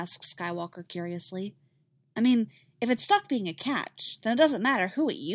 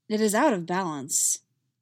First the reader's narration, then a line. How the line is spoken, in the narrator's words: Skywalker says gravely